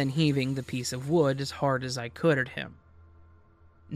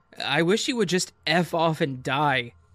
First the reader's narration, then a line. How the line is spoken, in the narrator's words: yelling